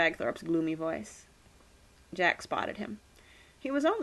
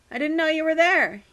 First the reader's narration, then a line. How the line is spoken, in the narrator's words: shouted